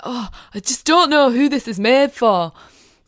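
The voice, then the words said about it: Imitates another person's voice, bad accent. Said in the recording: “that was a bad accent, I'm usually better at that”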